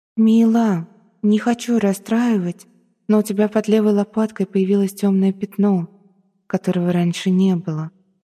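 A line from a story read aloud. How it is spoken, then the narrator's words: Dejected, sinking voice. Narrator (Russian): произнесла призрачная девушка упавшим голосом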